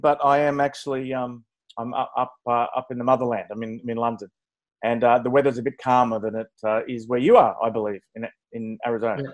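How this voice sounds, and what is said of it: Antipodean accent. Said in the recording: “My accents are Antipodean”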